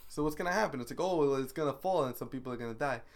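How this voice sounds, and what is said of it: Put-on Southern accent. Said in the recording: “southern accent.”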